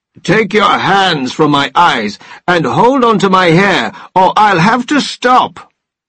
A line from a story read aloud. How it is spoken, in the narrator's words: he roared